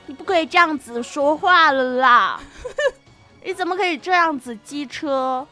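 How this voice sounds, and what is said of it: Playful put-on drifting accent. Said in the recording (Chinese): “口音跑偏”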